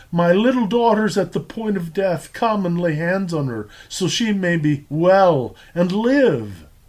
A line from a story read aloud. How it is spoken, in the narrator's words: pleads with the Master